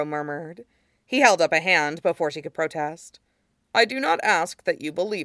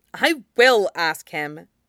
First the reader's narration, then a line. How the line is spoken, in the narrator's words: Katara said fiercely